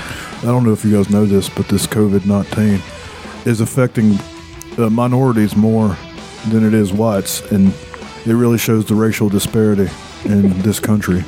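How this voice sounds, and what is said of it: Imitates another person's voice. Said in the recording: “my Don Blankenship's pretty spot on. ... Yeah, it's good.”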